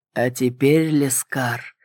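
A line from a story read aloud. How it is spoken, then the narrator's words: Dragon's mysterious whisper. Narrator (Russian): произнес дракон загадочным шепотом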